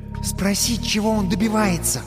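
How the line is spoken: Whispered advice. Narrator (Russian): шепотом посоветовала халява

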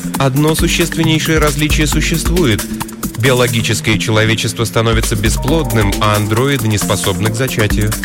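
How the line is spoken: Indifferent tone. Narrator (Russian): сказала Элисон безразличным тоном

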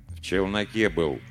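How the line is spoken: Gloomy answer. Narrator (Russian): мрачно ответил я

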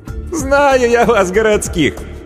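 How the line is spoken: Sincere laugh. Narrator (Russian): искренне рассмеялась

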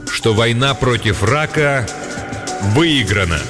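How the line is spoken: Loud and slow. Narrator (Russian): громко и медленно произносит

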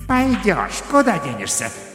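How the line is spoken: Sinister, through teeth. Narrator (Russian): зловеще процедил тот ангелок, что слева

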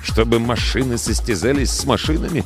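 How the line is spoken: Muttering. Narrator (Russian): пробормотал

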